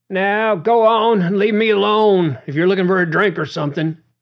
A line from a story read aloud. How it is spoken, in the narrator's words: Spinach shouted at Duane, startled by his solitude interrupted